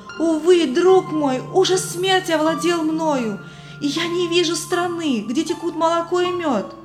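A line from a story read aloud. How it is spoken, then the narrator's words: Exclamation. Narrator (Russian): христианин воскликнул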